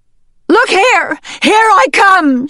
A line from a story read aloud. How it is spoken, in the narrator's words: bellowed